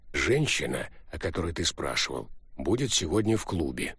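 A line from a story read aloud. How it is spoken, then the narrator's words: Quiet, cat speaker. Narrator (Russian): кот негромко сказал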